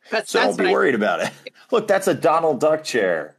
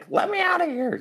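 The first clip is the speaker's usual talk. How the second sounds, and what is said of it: Funny character voice. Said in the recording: “that's a funny voice of a guy coming out of a coffin.”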